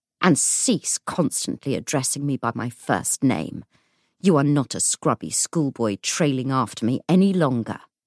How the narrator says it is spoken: he snarled

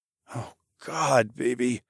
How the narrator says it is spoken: I grunted

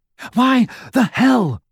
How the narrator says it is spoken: panted Ron

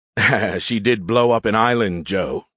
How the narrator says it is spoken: he chuckled

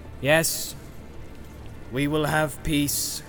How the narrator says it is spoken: he said now in a clear voice

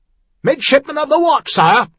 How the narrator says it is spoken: announced loudly

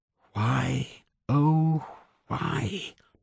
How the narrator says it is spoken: Paula mumbled to herself

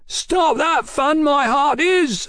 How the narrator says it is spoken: His howl echoed down the brickwork canyon

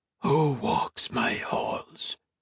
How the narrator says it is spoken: a male voice whispered in French

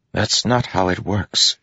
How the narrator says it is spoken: she whispered

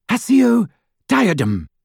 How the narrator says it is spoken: cried Hermione in desperation

